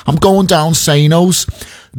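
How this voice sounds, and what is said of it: Put-on Scouse accent. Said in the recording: “you've got to put it in a bit of a Scouse accent as well”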